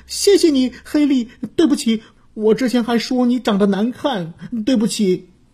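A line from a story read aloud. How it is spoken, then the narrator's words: Crying. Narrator (Chinese): 小兔子布偶哭着说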